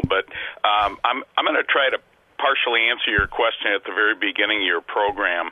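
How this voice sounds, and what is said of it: Unwell, strained-sounding voice. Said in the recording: “Excuse my voice. I'm not feeling well”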